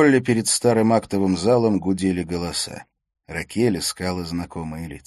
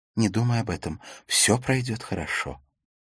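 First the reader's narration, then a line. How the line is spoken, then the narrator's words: Whisper. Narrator (Russian): Ракель прошептала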